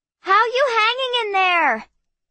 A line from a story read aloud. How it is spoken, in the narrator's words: she hollered over the wind